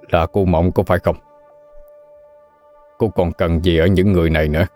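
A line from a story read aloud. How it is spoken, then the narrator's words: Loud laughter. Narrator (Vietnamese): Thiếm Hằng cười lớn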